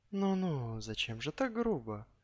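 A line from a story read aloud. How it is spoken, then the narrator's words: Affectionate sing-song, close by ear. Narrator (Russian): ласково пропел прямо над ухом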